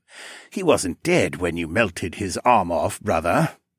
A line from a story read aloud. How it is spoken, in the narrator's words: Zarak chuckled